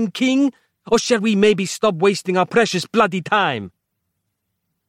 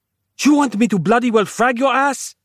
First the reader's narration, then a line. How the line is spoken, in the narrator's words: Capello shrieked